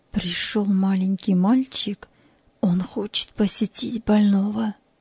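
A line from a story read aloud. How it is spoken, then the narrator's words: Quiet orderly. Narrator (Russian): санитар тихо сказал ей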